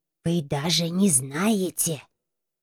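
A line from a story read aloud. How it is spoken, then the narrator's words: Exclaiming whisper. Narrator (Russian): прошептала, в голосе слышался не вопрос, а восклицание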